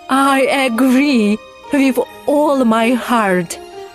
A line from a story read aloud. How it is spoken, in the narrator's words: cried the queen